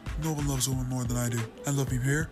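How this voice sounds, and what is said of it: Donald Trump impression. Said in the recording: “that is my Trump impression.”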